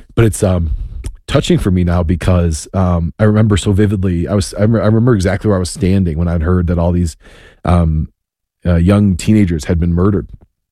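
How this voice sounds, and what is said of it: Choked-up, emotional voice. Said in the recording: “I got a little choked up”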